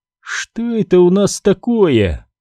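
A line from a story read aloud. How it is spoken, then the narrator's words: Mocking drawl. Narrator (Russian): насмешливо протянула Найрис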